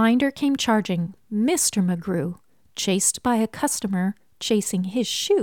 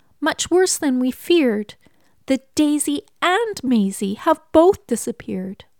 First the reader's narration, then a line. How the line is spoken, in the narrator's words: cried Miss Sneecher